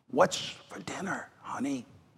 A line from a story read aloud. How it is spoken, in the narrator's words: he whispers in her ear